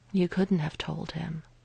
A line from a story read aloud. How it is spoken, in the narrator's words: Natasha said quietly